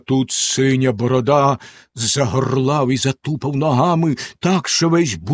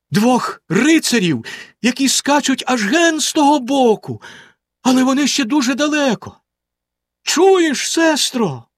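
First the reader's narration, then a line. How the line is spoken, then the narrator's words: Exclaiming. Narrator (Ukrainian): вигукнула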